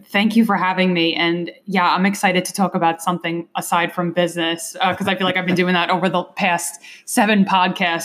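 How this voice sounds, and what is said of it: Long Island New York accent. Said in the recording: “you have an accent that's obviously not from Pittsburgh ... I accused you of having a New Jersey accent ... you're originally from New York, right? ... I'm a Long Islander. If you couldn't tell by the way I just said that”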